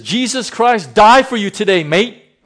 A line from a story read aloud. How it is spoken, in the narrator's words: He cried out, says